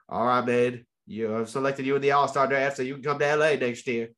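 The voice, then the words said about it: Badly done put-on accent. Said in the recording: “I apologize for that very bad accent.”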